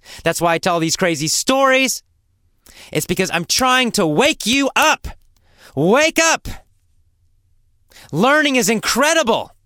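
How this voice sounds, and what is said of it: Loud, energetic yelling. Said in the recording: “I'm yelling. ... I have so much energy in my voice.”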